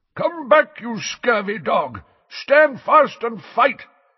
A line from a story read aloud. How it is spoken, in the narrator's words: yelled Sir Cadogan in a muffled voice from behind his visor